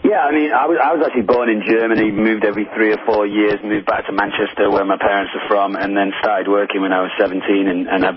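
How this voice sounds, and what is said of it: English accent with American tinge. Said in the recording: “I'm English, but a lot of my English friends say that I sound American now ... this is not really British, and it's not really Irish”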